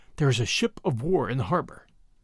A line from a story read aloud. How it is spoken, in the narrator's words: Bradley answered in a whisper